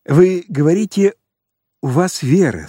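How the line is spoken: Plain, deacon. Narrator (Russian): сказал диакон

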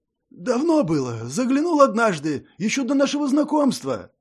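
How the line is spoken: Mumbled. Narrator (Russian): промямлил

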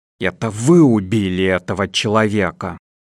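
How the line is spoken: Hissing. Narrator (Russian): прошипел доктор

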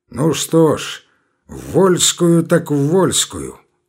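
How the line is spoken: Reckless, spitting through teeth. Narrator (Russian): говорил отчаянный, сплевывая сквозь зубы

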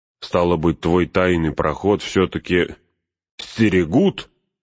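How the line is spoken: Barking. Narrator (Russian): рявкнул он

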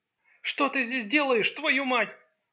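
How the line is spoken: Furious exclamation. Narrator (Russian): В бешенстве воскликнула

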